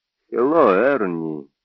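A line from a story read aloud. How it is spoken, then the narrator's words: Quiet. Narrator (Russian): тихо сказал он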